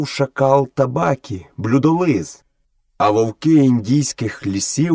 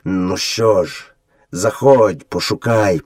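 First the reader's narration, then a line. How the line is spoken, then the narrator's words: Gloomy grumble. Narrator (Ukrainian): похмуро буркнув батько вовк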